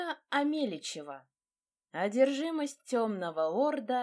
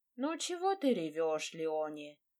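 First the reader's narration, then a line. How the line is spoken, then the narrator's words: Grumbling nanny. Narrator (Russian): пробурчала няня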